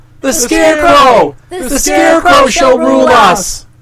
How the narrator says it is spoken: they all shouted

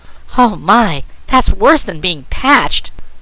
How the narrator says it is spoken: cried Trot

